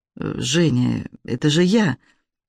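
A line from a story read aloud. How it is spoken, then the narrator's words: Quiet. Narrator (Russian): тихо произнесла она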